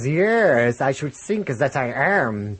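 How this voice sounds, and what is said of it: Kenneth Williams voice, German accent. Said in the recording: “An Egyptian mummy speaking with a German accent... I'm reading it now in the Kenneth Williams voice that he did”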